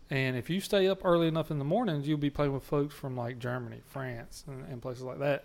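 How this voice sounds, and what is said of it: Southern American accent. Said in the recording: “my accent, they're like, are you Australian? ... my southern accent”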